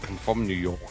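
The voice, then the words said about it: Put-on New York accent. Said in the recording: “how's your try an American? ... I'm so good at accents. ... Let's go with good old New York. ... Oh, New York's easy. It goes like this.”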